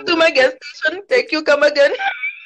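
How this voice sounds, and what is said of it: Stereotyped put-on Indian accent. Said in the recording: “some old stereotypical like Asian Indian guy that talking like you know that whole thank you come again accent”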